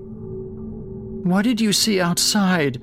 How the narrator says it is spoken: Jake asked between sobs

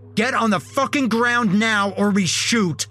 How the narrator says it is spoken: the other one yelled

